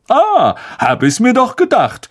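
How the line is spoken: Calling out. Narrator (German): rief Lockhart

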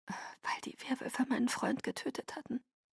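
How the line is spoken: Whispered. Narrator (German): flüsterte

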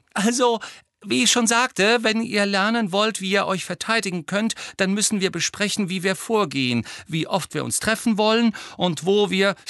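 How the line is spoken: Very high voice. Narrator (German): sagte Hermine wieder mit sehr hoher Stimme

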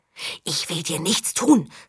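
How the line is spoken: Whisper. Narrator (German): flüsterte

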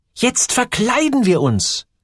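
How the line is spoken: Called out. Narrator (German): rief Gertrud

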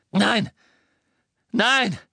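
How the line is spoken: Called out. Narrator (German): rief Ron

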